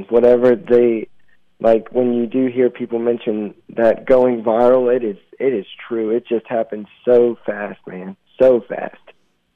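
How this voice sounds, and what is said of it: Slight Southern American twang. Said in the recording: “I'm getting a little twang there ... A little twang. I'm from Southern Virginia, right on the border of North Carolina”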